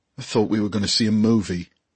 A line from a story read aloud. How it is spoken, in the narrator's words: grumbled Tom